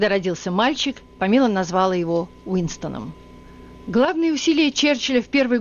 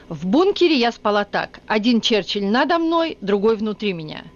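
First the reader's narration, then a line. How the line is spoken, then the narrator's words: Cheerful reminiscing. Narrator (Russian): она весело вспоминала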